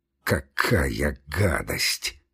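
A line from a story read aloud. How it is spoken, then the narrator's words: Muttered. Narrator (Russian): пробормотал зоолог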